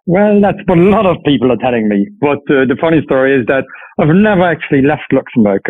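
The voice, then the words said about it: Slight Irish accent in English. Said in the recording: “you have a slight Irish accent when you speak English ... I've picked up a funny accent”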